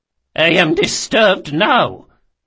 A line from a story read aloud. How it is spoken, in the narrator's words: she spat